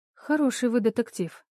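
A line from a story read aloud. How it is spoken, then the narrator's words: Calm. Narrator (Russian): спокойно сказала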